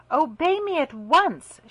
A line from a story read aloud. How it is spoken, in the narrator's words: she cried angrily